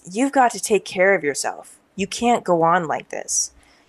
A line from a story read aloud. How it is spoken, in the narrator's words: begins to talk in a very deep voice and says